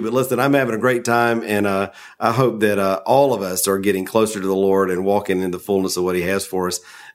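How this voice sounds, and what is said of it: Southern American accent. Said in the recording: “Maybe it's because I'm from the South and he sounds like a best friend ... you're chuckling at my Southern accent”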